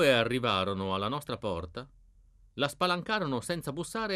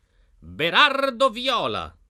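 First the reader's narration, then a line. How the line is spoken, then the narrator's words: Knight shouting. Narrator (Italian): gridò il cavaliere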